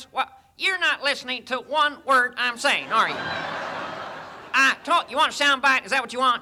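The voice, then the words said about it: Ross Perot impression. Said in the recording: “his Ross Perot impersonation ... I did do Ross Perot”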